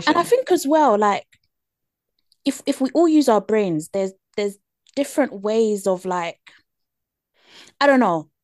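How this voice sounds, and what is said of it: British accent. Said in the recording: “me with my British accent”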